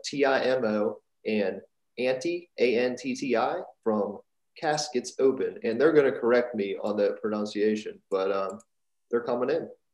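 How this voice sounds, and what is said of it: American accent. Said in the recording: “forgive my American accent.”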